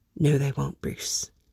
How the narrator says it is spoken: Alfred whispers to him

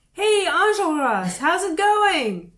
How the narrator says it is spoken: shout

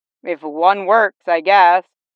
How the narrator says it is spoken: Jason muttered

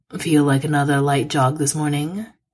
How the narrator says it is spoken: said blandly

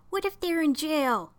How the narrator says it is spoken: Raniel said, his voice a little higher than usual

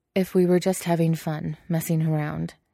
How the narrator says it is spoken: he says

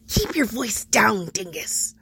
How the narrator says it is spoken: Robin hisses

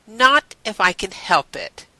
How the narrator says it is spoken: Elizabeth said firmly

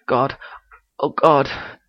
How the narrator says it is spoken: Sherlock gasps

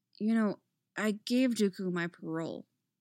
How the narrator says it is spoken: Anakin mutters suddenly to her

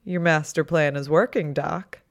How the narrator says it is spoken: Wade laughed

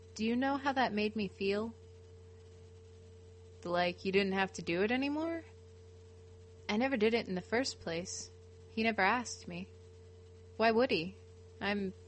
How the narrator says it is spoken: he says in a too steady voice

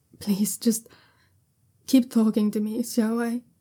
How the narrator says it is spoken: Jiaolan says shakily

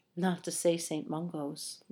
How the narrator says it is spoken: Lupin said softly

